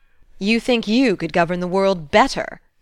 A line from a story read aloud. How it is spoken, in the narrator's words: laughed the doctor